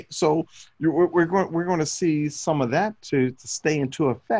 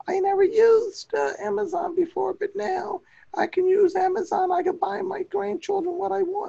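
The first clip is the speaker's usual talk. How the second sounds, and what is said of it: Hoarse old grandmother voice impression. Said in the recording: “grandma needs to take a cough drop or something ... my bad voice impersonations”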